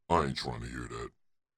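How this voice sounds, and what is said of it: Deliberately deep voice. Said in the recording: “in my deep voice”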